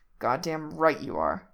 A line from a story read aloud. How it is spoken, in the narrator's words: Jack growls, breath hot in Reese's ear